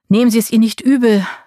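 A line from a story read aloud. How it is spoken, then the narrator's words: Timid call after someone. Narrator (German): rief zaghaft hinterher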